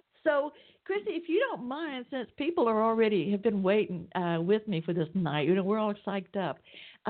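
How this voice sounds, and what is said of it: Southern US Georgia accent. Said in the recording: “You might even tell from my accent I'm down here in Atlanta, Georgia.”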